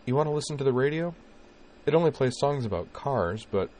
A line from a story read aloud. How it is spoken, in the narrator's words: she said in a slightly forced conversational tone